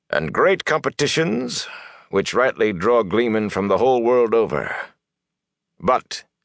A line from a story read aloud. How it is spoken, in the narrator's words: added dryly